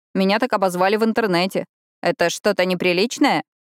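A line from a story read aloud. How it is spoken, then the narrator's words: Snorting. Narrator (Russian): Пиппа фыркнула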